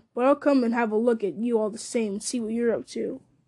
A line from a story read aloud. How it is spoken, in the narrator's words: growled Snaga